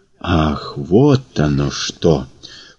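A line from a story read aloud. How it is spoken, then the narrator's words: Surprised drawl. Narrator (Russian): протянул Прохор, скорее удивленно, чем испуганно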